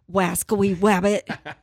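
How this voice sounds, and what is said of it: Cartoon hunter voice impression. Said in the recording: “Can you do an Elmer Fudd accent?”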